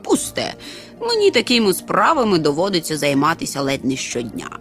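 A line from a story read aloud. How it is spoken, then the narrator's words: Careless grumble. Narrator (Ukrainian): недбало буркнув мумітроль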